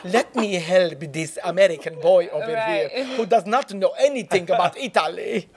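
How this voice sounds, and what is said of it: Bad put-on Italian accent. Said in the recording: “bad Italian accent”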